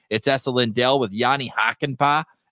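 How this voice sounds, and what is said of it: Put-on Boston accent. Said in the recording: “that Boston accent you gave for Jani Hakanpää”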